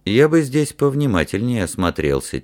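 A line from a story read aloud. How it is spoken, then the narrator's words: Quiet. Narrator (Russian): тихо сказал Ральф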